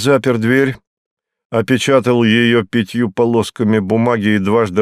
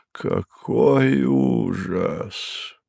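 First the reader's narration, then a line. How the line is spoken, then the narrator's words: Mumbling from behind. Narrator (Russian): бормотал Дю Барнстокер у меня за спиной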